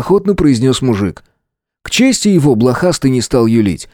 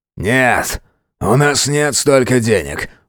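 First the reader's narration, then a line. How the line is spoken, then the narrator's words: Grumbling werewolf. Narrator (Russian): буркнул оборотень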